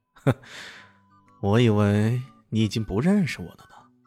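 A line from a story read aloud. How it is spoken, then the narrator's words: Cool, indifferent. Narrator (Chinese): 李炫淡淡的说道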